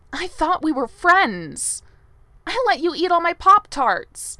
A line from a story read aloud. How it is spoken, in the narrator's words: she says, her voice cracking